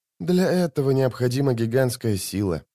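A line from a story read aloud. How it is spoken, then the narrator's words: Sighed. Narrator (Russian): вздохнула Мистли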